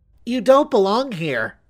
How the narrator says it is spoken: the squealing voice of Mary Marble chanted from the darkness

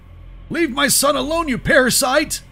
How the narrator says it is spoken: The farmer screamed

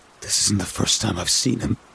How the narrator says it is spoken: he whispered after a long, hesitant pause

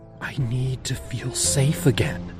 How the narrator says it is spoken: I whispered

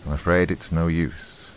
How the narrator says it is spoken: I said gravely

